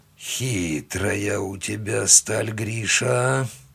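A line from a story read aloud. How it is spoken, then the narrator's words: Drawled. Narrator (Russian): протянул он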